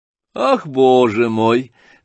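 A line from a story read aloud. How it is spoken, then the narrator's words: Laughing. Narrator (Russian): рассмеялся Иван Петрович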